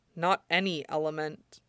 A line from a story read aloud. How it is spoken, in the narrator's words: Zuko said quietly